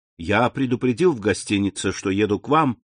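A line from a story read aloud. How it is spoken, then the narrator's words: Plain. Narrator (Russian): сказал Франц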